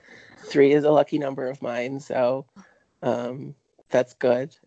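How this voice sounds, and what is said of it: Rough, under-the-weather voice. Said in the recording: “I am a little bit under the weather ... my voice is not recuperated completely yet ... enjoy this hot mess ... just been replaced by Roseanne from our finance department ... I'm 50. I've smoked since I was a teenager.”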